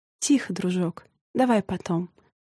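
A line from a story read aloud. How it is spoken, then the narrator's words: Gentle request. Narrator (Russian): попросила она его ласково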